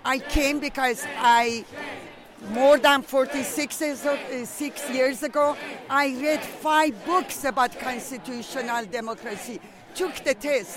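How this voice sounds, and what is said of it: Foreign accent. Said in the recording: “I'm the only one with accent.”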